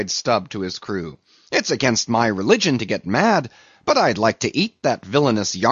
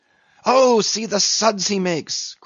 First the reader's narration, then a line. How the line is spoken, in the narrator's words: cried Flask, dancing up and down